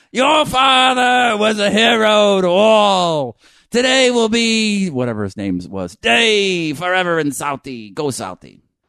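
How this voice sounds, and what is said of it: Mock bad Boston accent. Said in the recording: “A lot of L.A. actor types trying to do a Boston accent. ... A lot of gurgling of the fucking phlegm.”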